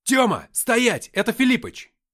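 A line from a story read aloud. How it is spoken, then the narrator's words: Shout. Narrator (Russian): крикнул я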